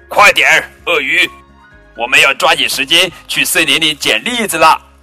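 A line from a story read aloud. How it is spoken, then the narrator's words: Loud. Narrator (Chinese): 丽塔大声说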